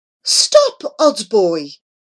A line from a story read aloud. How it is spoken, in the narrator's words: cried Grandfather Petamyangi, alarmed